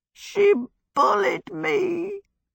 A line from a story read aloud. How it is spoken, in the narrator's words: Calcifer said in a piteous, muffled voice from under the sizzling pan